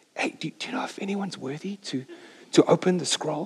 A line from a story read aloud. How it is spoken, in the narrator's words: kind of under his breath going